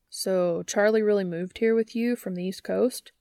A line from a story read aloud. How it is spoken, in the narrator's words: Dean asks